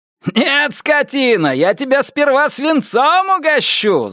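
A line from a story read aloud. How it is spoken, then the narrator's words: Spirited, defiant shout. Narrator (Russian): задорно крикнул он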